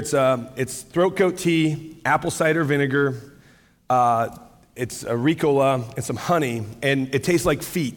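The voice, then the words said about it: Slightly hoarse, fading voice. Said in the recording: “losing my voice just a hair”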